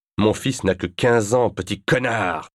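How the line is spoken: Furious screaming. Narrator (French): hurla-t-il

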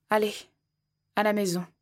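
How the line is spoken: Plain. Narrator (French): a-t-il dit

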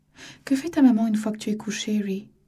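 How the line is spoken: Gentle question. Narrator (French): demanda doucement Marianne

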